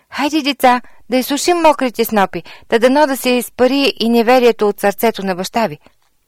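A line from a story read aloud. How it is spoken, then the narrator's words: Calling out. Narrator (Bulgarian): мама викна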